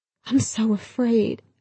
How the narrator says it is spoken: I whimpered

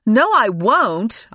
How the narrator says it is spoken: I yelled

